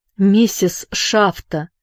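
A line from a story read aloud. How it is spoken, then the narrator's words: Trembling call. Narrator (Russian): позвал он дрожащим голосом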